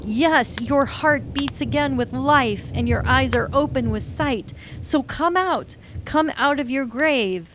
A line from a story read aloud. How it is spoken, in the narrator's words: yelled out